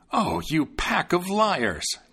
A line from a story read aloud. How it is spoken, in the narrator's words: the tailor exclaimed